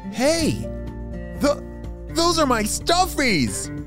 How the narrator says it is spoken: shouted Nolan

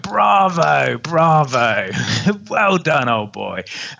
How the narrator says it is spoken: And he was laughing his head off and he went

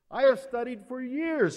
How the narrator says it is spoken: he cried

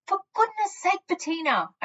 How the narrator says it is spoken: I shouted through the glass wall

